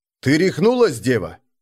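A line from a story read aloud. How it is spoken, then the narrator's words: Stern question. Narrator (Russian): строго спросил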